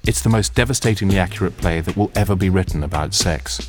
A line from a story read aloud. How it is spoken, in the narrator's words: said Susie